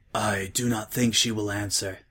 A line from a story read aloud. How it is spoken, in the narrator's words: said Applejack softly